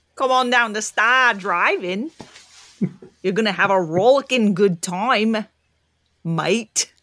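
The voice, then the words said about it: Put-on Australian accent. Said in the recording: “How was that Australian accent? ... Yeah, that was good.”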